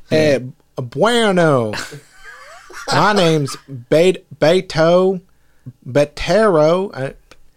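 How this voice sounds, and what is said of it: Attempted Texas Mexican accent. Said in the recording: “I'm trying to do like a Texas Mexican accent... can't do it.”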